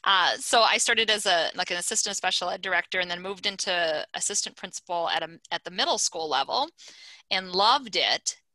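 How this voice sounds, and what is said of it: Minnesota accent. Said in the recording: “You got to hit that accent... hit the accent again... Minnesota... I'm a Minnesota transplant and I still got that accent.”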